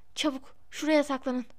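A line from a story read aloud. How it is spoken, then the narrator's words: Whispered. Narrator (Turkish): diye fısıldadı Harry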